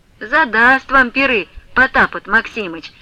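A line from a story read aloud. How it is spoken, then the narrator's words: Grumbling. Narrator (Russian): ворчала Марьюшка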